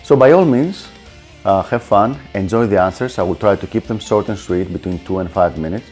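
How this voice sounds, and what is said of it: Greek accent. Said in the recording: “I have this very unique Greek accent”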